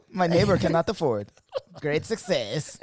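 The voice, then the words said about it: Borat-style Eastern European accent. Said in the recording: “what was that accent you said for great success? It sounded German ... Borat ... Oh, Eastern”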